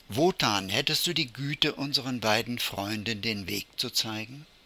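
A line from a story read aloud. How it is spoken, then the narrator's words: Called out. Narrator (German): Der Bartkauz … rief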